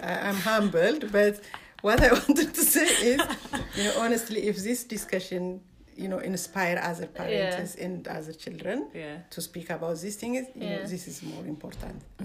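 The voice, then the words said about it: Thick accent. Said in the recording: “my thick accent”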